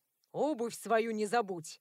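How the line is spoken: Growled. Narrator (Russian): рыкнул он

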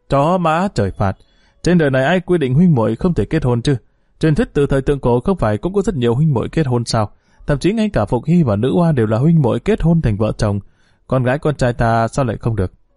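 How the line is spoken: After mad laughter, speaking. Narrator (Vietnamese): Từ Đắc Tổ lại cười to điên cuồng, sau một lát mới ngừng lại nói

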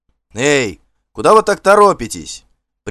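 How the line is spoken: Cheerful shout. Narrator (Russian): весело закричал Гельт

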